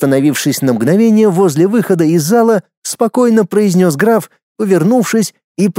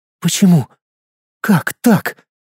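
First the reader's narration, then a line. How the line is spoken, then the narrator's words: Very quiet whisper. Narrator (Russian): Очень тихо прошептала Луиза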